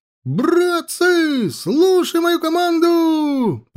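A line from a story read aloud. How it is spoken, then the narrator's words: Shout. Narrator (Russian): прокричал Федька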